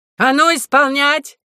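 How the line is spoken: General shouting. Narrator (Russian): крикнул генерал

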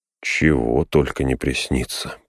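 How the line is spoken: Muttered. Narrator (Russian): пробормотал он

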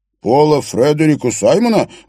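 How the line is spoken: Exclaimed. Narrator (Russian): воскликнул Бёрн

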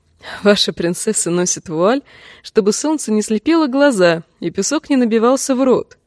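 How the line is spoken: Forced laugh. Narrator (Russian): принужденно засмеялась она

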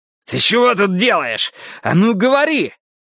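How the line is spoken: Alarmed shout while shaken. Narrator (Russian): Гарриет закричала, потому что он принялся, что было сил, трясти ее за руку

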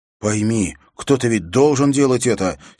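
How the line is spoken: Angry. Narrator (Russian): сердито сказал Уилл

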